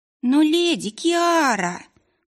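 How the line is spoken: Young witches groaning in chorus. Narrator (Russian): хором простонали юные ведьмы

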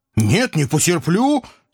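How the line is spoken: Uncontrolled bark. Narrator (Russian): не сдержавшись, рявкнул я

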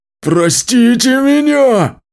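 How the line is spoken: Shouting. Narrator (Russian): кричал Мичик

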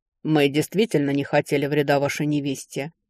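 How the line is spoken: Cold. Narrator (Russian): холодно произнес Ярош Тренвер

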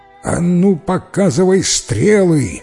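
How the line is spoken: Ruler's menacing shout. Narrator (Russian): грозно прокричал ему повелитель

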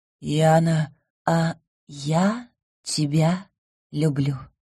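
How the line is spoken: Whisper. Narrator (Russian): прошептала

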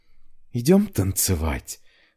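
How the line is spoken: Confidential whisper. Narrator (Russian): доверительно шепнула я

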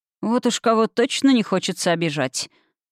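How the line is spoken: Scoffing snort. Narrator (Russian): хмыкнул Конрад

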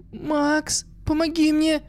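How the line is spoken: Pleading. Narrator (Russian): Взмолила она

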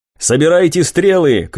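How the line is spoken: Shouted. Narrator (Russian): крикнул я

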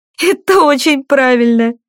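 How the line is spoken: Speaking after laughter. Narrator (Russian): просмеявшись, проговорила Кора

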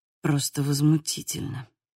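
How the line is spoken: Muttered. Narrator (Russian): пробормотал Михел

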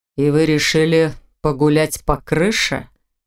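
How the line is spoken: Amused snort. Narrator (Russian): хмыкнул он

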